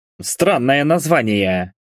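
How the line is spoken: Snorted. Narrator (Russian): хмыкнул

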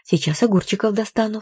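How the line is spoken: Flustered babbling. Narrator (Russian): лепетала

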